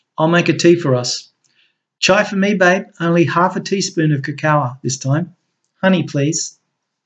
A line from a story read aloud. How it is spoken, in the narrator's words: Crystal said in a soft voice, ever so sweetly